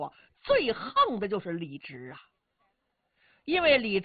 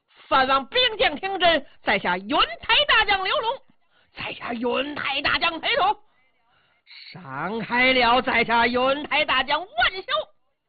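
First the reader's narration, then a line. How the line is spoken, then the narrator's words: Loud shouting. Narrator (Chinese): 几个人高声喊嚷，道出名姓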